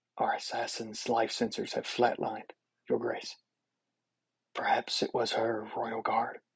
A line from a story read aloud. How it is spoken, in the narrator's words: General Zion of the Great Lodane fleet approaches the king, whispering in his ear